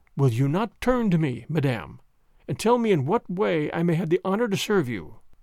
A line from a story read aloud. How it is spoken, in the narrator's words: He restrained himself with a tremendous effort of will, and said coldly, though still very gently